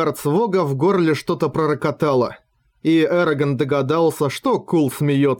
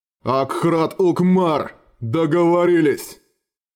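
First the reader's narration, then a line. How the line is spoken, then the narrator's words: Growled. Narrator (Russian): прорычал Кул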